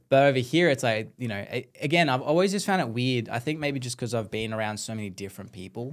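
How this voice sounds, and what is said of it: Australian accent. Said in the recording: “you're Australian? ... Why do you come in with that accent”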